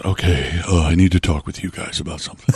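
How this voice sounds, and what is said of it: Imitates another person's voice. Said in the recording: “That's a very good impression.”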